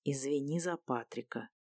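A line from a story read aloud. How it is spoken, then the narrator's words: Quiet. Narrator (Russian): негромко произнес он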